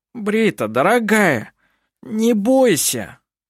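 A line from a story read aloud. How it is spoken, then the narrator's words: Pleading. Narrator (Russian): Взмолился Клампин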